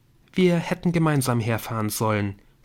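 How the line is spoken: Plain. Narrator (German): sagte Emily

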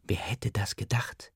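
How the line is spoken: Whispering. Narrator (German): zuflüstert

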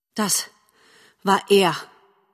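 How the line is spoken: Mother's panting answer. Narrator (German): Die Mutter gab keuchend zur Antwort

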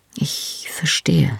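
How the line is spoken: Quiet. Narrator (German): sagte leise

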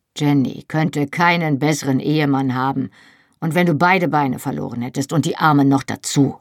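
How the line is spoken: Gruff. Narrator (German): sagte Jamie schroff

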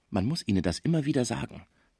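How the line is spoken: Quiet explaining. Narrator (German): erklärte er Schmucke leise

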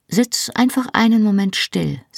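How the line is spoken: Plain. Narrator (German): sagte sie

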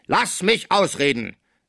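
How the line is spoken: Thunderous shout. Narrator (German): rief mit Donnerstimme

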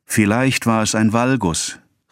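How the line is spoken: Sudden loud exclamation. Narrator (German): rief Charles plötzlich laut aus

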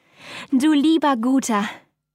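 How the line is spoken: Groaning. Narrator (German): stöhnte Gräfin Hildegard, die durch den Schlag tief in den Lehnstuhl hineingetrieben worden war

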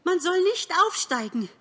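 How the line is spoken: Calling out. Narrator (German): rief er den Seinigen zu

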